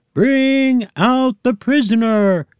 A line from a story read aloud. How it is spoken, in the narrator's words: cried the other aliens